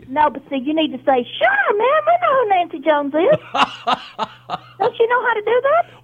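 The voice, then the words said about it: Southern American accent. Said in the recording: “you got the southern accent.”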